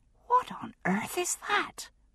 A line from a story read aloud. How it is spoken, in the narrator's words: Brianna whispered to me